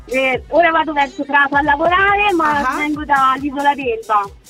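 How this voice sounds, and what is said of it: Tuscan Italian accent. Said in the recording (Italian): “sento un accento toscano.”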